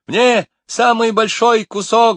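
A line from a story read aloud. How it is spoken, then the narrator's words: Excited yell. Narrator (Russian): завопила Нелли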